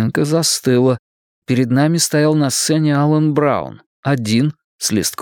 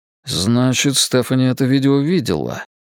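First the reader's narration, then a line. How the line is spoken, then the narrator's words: Muttering. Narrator (Russian): пробормотал я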